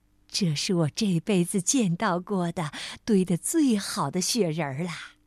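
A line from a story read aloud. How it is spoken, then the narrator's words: Smiling after a pause. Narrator (Chinese): 过了好一会儿，她才微笑着说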